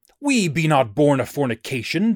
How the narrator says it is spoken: they cried

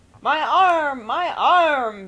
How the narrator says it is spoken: bellowed Mr

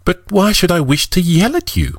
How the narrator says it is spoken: Marianne exclaimed

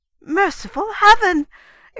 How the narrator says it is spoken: exclaimed Fanny

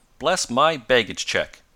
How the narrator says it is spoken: exclaimed the excitable man

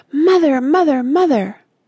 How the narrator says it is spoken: shouting

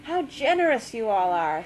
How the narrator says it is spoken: she exclaimed

